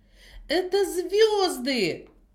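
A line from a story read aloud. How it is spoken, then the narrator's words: Exclaimed. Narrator (Russian): воскликнула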